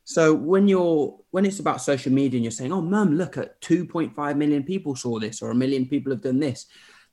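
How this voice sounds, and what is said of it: Blended English regional accent. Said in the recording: “accent ... Oh, it's all over. It's Derby, Sheffield, Birmingham, Norwich, Zimbabwe. Just a blend. It's a smoothie of voices.”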